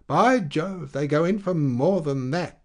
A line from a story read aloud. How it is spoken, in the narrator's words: exclaimed the druggist